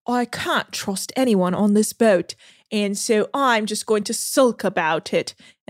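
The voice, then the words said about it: Put-on British accent. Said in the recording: “British accent, my bad. I don't know what I'm doing. ... It's perfect. Don't change.”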